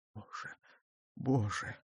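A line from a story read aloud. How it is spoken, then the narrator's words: Whispered. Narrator (Russian): прошептал Арман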